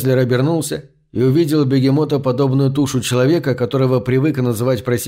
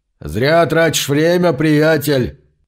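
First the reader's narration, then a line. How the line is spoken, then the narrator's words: Deep booming voice. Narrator (Russian): прогудел густой голос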